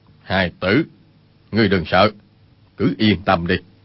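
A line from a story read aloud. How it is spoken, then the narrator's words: Serious, lowered voice. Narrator (Vietnamese): vẻ tươi cười lập tức thu hết lại, hạ giọng nói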